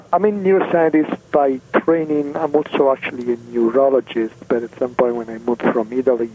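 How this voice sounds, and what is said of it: Italian accent. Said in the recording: “you can guess I'm Italian from my accent ... it's lovely”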